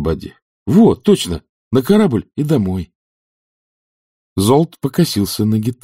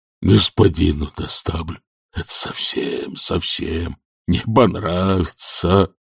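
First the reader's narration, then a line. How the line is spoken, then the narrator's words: Moaning pavement. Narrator (Russian): стонал асфальт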